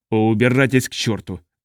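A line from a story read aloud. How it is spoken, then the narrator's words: Barked. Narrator (Russian): рявкнул Орн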